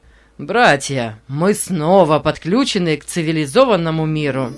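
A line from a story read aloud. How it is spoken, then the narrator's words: Laughing announcement. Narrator (Russian): Нейт, смеясь, сообщил другим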